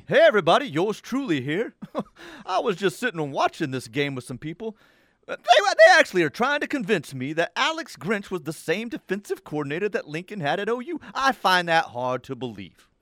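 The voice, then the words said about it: Imitates another person's voice. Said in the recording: “That's my OJ video from ... That's an unbelievable OJ impersonation.”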